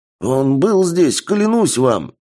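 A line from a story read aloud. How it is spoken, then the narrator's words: Old man's exclamation. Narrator (Russian): воскликнул дед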